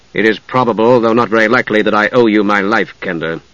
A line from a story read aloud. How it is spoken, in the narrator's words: Steele said coldly